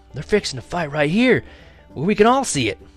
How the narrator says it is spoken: I hollered back to Mama and little Arliss

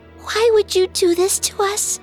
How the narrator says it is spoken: whimpered the child

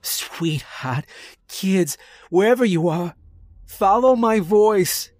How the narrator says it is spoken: he screamed

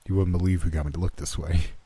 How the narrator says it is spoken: chuckled

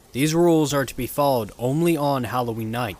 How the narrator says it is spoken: he said

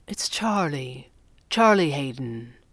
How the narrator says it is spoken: the red panda said gently

